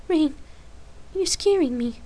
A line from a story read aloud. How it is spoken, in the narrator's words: Lark answered anxiously